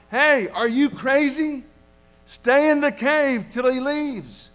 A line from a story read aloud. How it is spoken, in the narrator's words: his companion in the tree frantically called out